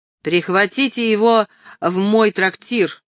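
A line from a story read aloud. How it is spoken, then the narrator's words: Shouted. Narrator (Russian): крикнул лорд Перси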